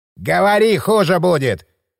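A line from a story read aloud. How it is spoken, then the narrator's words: Growling burly man. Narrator (Russian): прорычал плечистый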